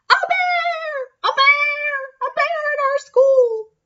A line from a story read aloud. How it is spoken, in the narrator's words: She screamed